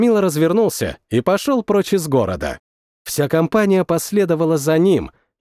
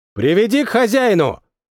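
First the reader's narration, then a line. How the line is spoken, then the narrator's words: Shouting. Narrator (Russian): прокричал один из них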